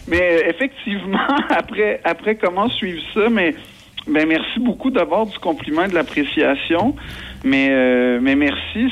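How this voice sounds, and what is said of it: Québécois French accent. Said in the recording (French): “l'accent, c'est pas une distorsion, c'est que je suis québécois”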